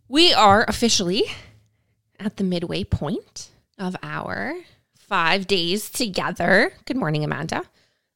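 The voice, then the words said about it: Hoarse, croaky voice. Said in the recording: “I have a frog in my throat”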